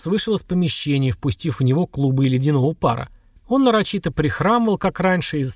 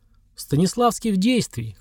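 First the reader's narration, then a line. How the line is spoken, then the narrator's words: Short laugh. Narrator (Russian): хохотнул Влад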